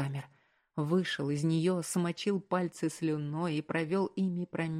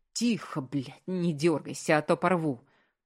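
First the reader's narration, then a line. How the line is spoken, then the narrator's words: Growling. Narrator (Russian): прорычал он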